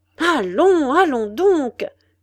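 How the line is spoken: Old man exclaiming. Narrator (French): s'écria le vieux Jonas

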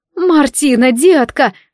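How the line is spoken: Cried out. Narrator (Russian): вскрикнула Нинни

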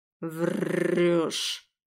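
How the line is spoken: Growl. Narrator (Russian): прорычал

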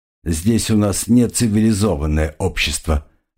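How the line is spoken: Plain. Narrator (Russian): сказал Тимур Алк

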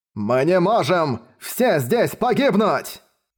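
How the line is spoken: Nobleman's shout. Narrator (Russian): закричал гун

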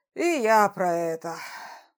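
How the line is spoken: Sighing. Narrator (Russian): вздохнул Рогулд

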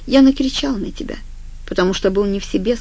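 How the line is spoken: Calm. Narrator (Russian): сказал спокойно

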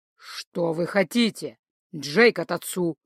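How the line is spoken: Werewolf's growl. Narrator (Russian): зарычал оборотень

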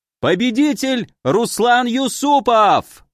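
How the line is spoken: Yelling commentator. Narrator (Russian): заорал комментатор

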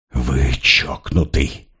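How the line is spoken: Hissing. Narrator (Russian): прошипел Поль

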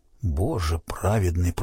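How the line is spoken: Whisper. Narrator (Russian): прошептал

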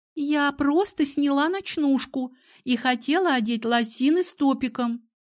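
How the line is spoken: Girl giggling. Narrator (Russian): хихикнула девушка

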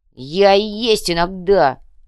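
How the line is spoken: Barking snap. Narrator (Russian): рявкнул

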